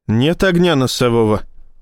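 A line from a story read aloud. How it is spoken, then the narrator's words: Dejected voice. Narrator (Russian): упавшим голосом ответили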